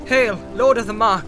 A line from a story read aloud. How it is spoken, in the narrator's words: she cried